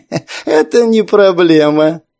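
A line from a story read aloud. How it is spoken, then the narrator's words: Laughing. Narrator (Russian): рассмеялся Кальмар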